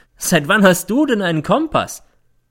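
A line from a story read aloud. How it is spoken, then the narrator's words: Mocking question. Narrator (German): fragt sie, und es klingt wie Hohn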